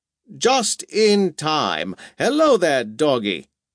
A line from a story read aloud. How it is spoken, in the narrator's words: exclaimed the president